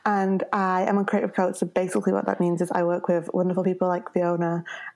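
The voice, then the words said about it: Strong Northern English accent. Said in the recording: “my very strong Northern accent.”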